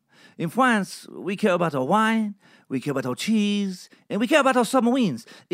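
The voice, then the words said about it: Poor put-on French accent. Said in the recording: “I feel like my French accent got a little better as it went on, but I know it was still shit.”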